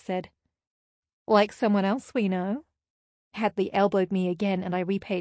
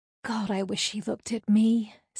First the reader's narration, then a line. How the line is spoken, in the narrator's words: Celeste sighed